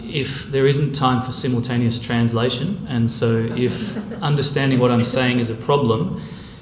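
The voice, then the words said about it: Non-local accent. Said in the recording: “You may hear from my accent that I'm not from close to here.”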